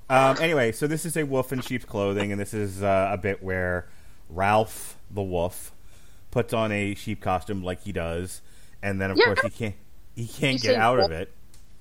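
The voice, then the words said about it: New York accent. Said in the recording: “when you say wolf, you sound like you're just saying woof? ... That's my New York accent”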